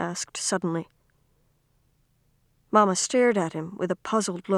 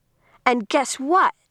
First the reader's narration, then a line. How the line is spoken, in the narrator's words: Kirsty exclaimed suddenly in a loud voice